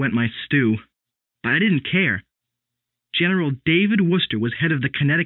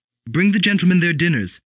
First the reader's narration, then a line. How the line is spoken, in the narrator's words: Mother snapped